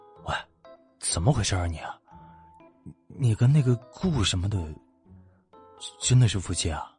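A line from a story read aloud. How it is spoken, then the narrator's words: Quiet, low question. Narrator (Chinese): 欧若野低声问道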